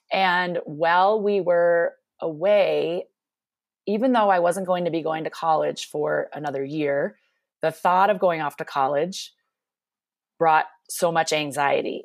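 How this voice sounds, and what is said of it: Minnesota accent. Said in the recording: “I grew up in Minnesota, which you may hear my accent from time to time”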